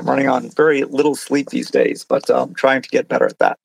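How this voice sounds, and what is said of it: Scratchy, tired voice. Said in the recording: “my voice is getting very scratchy”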